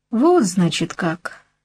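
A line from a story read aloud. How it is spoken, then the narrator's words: Disappointed sigh. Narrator (Russian): разочарованно вздохнул альбинос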